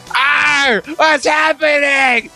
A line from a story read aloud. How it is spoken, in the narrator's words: I shouted